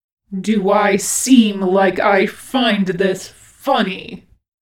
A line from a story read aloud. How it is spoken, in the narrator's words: snarled Virgil